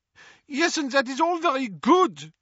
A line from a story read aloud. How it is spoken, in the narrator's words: snapped Fleur